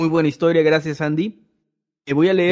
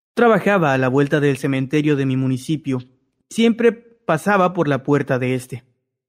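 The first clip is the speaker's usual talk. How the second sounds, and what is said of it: Storyteller narrator voice. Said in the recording (Spanish): “voz de narrador on”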